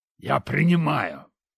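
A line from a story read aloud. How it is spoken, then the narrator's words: Hissing. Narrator (Russian): прошипел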